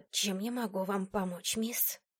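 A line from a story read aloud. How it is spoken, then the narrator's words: Hissing whisper. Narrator (Russian): спросила свистящим шепотом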